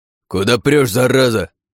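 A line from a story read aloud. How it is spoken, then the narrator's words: Guard's harsh bark. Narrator (Russian): рявкнул караульный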